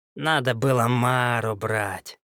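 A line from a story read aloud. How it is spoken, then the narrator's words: Unfriendly grumble. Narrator (Russian): недружелюбно проворчал Ильиц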